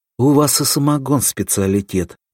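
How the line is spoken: Sigh. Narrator (Russian): вздохнул Клаус

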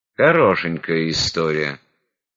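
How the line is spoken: Grumbled. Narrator (Russian): буркнул Кулябка

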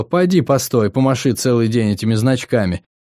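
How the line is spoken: Sighing. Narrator (Russian): вздохнул Пэтти

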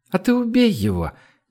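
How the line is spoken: Lazy advice. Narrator (Russian): лениво посоветовала Женя

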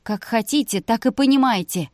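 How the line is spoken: Snapping, annoyed at herself. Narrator (Russian): огрызнулась Вика, злясь на себя за высказанную глупость

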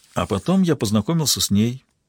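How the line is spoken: Quiet. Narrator (Russian): тихо продолжил куратор

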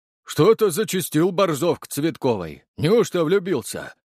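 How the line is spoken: Deep bass voice. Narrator (Russian): пробасил Витя

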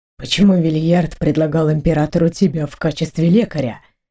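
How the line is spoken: Barely audible question. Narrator (Russian): едва слышно спросил Бейл

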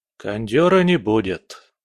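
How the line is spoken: Gloomy. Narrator (Russian): мрачно произнес

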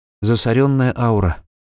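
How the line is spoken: Sighing. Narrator (Russian): вздохнула Герта

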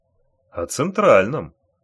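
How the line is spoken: Calm repetition. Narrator (Russian): спокойно повторил Бешеный

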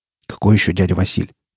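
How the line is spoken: Muttered. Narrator (Russian): пробормотал Рамир

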